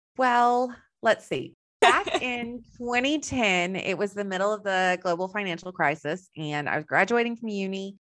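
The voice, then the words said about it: Slight Texan American accent. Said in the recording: “I have a little bit of an accent. So I'm originally from Texas.”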